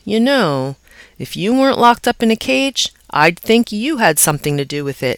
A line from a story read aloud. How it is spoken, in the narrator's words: he said